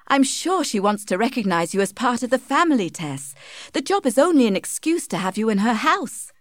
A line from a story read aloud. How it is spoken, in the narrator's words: said Joan Durbeyfield happily